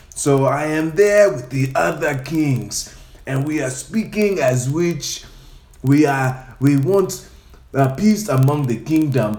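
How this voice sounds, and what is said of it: Put-on African accent. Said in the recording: “I speak in an African accent like this”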